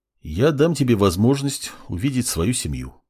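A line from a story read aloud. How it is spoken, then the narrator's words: Calm young man. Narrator (Russian): спокойно произнес парень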